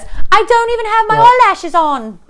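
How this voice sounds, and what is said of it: Cute girly imitated voice, poorly done. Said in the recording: “She has like a cuter, like Baby Spice more voice. ... That was not good.”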